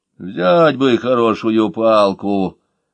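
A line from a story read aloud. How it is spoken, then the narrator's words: Good-natured old woman's grumble. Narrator (Russian): добродушно проворчала старуха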